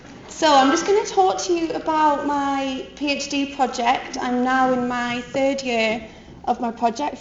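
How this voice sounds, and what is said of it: Geordie accent with American tinge. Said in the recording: “I hope you can all understand my accent. I keep trying to adopt a weird American accent ... so I kind of verge into this weird Geordie American thing.”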